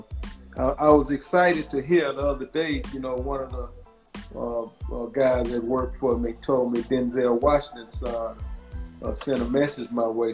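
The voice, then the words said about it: Southern American accent. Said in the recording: “I got this Southern accent and, you know, I can't talk good”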